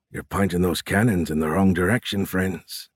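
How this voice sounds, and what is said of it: Low voice with Irish accent. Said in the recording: “a low voice, thick with an Irish accent”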